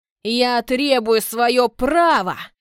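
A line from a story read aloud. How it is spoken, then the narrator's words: Roaring. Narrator (Russian): Взревел тот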